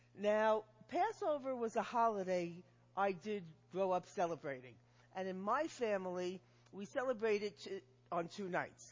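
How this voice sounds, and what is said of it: New York accent. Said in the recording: “I can come here from New York with my accent”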